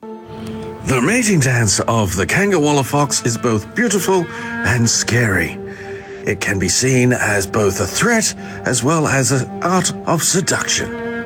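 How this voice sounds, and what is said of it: David Attenborough impression. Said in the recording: “doing your best David Attenborough impression”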